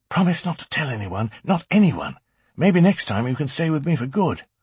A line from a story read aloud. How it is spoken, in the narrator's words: He was thrilled, he whispered excitedly